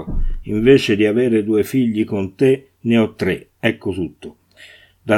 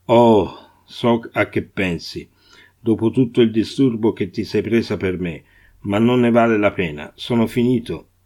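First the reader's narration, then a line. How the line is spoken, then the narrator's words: Sad. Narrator (Italian): disse tristemente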